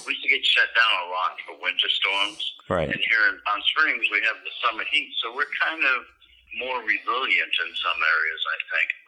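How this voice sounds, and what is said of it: Cape Cod accent. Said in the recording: “I'm from Cape Cod, and you can probably tell by my accent.”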